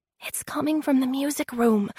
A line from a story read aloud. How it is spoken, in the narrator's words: he whispered